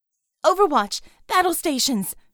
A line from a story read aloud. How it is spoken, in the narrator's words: she cried